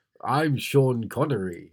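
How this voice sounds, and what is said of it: Sean Connery Scottish accent impression. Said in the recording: “That was better. ... a Scottish accent”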